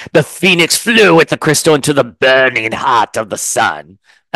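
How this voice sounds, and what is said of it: Imitating Emma's accent. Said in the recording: “I was doing Emma's accent there.”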